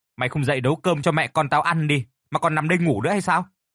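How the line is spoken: Loud shout. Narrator (Vietnamese): Xuân, con gái của Phương, quát lớn

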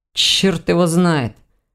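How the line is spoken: Grumbling. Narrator (Russian): проворчал Ваня

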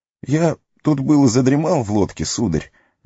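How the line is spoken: Hesitant. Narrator (Russian): неуверенно начал он

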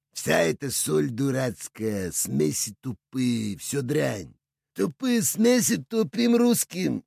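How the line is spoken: Chuckled. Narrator (Russian): хохотнул Мансур

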